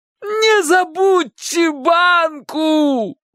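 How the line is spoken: Dying-voice shout. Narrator (Russian): крикнул Чик предсмертным голосом

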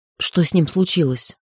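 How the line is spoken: Quiet question. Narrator (Russian): спросила негромко

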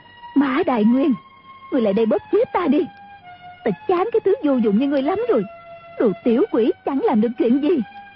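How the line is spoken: Shrill hissing shriek. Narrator (Vietnamese): Mã phu nhân rít lên

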